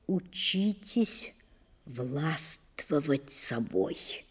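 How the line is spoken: Quiet pleading advice. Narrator (Russian): тихо посоветовал, попросил

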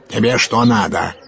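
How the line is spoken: Barked shout. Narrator (Russian): гаркнул на него урядник

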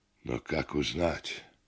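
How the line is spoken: Hoarse question. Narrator (Russian): спросил Андрей хрипло

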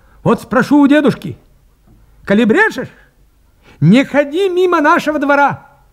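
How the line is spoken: Threatening shout. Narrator (Russian): крикнул, грозя Поповичу кулаком

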